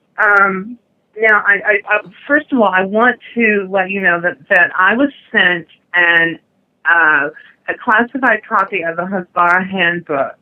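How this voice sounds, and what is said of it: American accent. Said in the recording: “You sound a little more American ... You sound American. ... I'm born and raised in the United States.”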